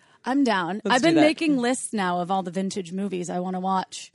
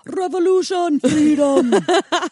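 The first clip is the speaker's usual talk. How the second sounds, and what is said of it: Put-on Scottish accent. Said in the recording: “Can you do that in a Scottish accent?”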